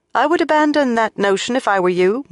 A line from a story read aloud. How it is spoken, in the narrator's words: Moiraine said loudly